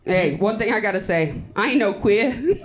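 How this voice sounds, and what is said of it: Put-on Boston accent. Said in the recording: “Did, did, did you just do a Boston accent?”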